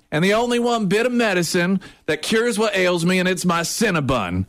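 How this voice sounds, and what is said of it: Put-on southern accent. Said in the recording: “are you from the South? ... your southern accent”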